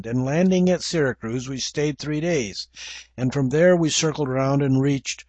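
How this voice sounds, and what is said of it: English accent. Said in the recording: “You'll have to forgive my English accent for Greek names.”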